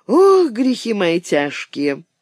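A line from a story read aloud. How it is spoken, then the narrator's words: Heavy sigh. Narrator (Russian): Салтыкова тяжело вздохнула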